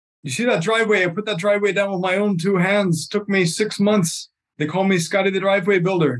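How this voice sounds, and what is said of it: Put-on accent telling a joke. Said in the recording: “whatever that accent was”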